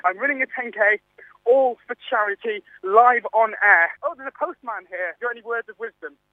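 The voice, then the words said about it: Slightly out of breath. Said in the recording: “I'm sound slightly out of breath”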